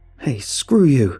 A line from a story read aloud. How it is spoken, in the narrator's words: Kevin screaming at the top of his lungs